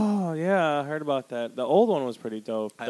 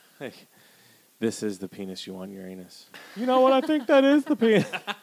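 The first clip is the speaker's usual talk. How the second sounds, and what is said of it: Impression of Officer Barbrady. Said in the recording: “What was that voice? ... A little Barberry, maybe. ... From South Park.”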